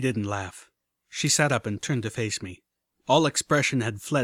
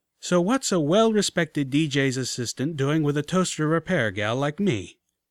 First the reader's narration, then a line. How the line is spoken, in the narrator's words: I asked, half laughing at her joke